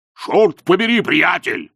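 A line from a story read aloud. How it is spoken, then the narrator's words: Bark. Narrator (Russian): рявкнул он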